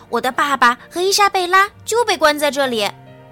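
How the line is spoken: Shouting. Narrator (Chinese): 比诺大喊道

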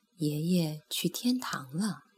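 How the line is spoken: Soft, gentle mother. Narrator (Chinese): 妈妈坐在艾斯本的床头，轻声说

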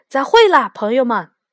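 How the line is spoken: Loud. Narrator (Chinese): 他大声地对我们说

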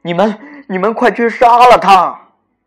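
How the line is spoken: Anxious shout. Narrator (Chinese): 国王急得大喊

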